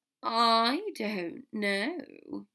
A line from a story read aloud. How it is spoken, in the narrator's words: Draco drawled